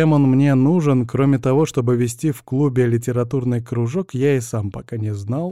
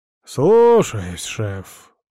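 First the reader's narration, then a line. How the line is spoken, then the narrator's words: Sullen mutter. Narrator (Russian): угрюмо пробормотал он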